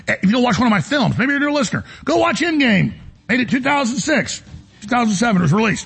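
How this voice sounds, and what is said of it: Texas accent. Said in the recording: “I have a Texas accent.”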